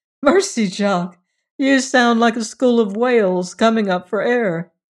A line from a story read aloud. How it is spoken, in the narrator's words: McChesney used to call gaily through the door